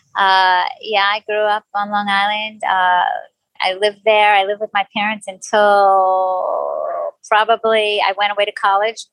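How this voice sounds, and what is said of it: New York accent. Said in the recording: “your accent is very common ... It's a New York accent from Long Island”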